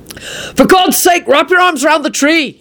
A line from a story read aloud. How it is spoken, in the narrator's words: he shouted at her